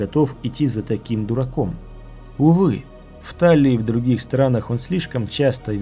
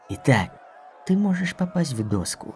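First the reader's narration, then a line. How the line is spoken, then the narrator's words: Barely audible muttering. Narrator (Russian): пробормотал он неслышно для других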